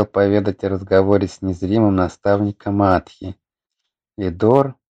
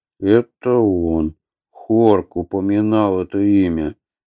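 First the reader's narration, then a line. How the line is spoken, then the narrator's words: Grim. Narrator (Russian): мрачно заключил Атхи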